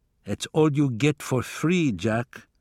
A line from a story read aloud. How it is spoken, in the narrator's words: he said flatly